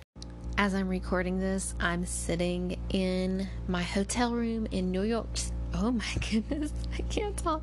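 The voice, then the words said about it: Exhausted, tired monotone voice. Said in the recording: “my exhausted monotone voice ... My voice might be monotone ... super tired”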